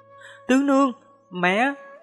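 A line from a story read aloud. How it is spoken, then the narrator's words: Shocked cry. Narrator (Vietnamese): Ngọc Châu và Thái Hoàng vẻ mặt đại biến, không kềm nổi mà kêu lên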